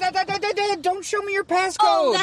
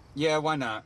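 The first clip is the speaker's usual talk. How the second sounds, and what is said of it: Sarcastic agreement. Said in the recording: “I'm being sarcastic!”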